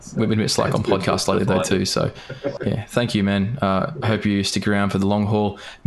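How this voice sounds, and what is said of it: Strained, hoarse voice. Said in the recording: “I'm beginning to lose my voice ... my voice is going south fucking quickly ... a voice strain from being a dickhead and yelling a lot”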